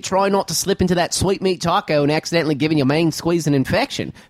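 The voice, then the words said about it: Put-on Australian accent drifting Southern. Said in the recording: “We've been doing the Aussie accent. ... I see it always goes into Southern. ... Or should I keep going Australian?”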